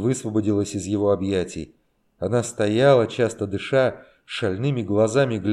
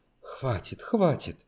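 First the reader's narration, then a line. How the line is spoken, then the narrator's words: Whispered. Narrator (Russian): Наконец Таня зашептала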